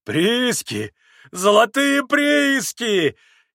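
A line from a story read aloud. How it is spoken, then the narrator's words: Loud shout, then laughter. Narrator (Russian): Изо всей силы закричал Митя и закатился смехом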